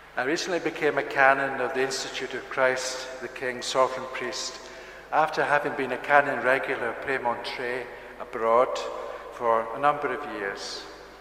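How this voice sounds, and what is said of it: Scottish accent. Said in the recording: “As you may tell from my accent, I'm from Scotland originally”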